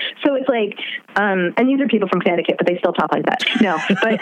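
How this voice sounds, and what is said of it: Usual voice. Nothing is said of it.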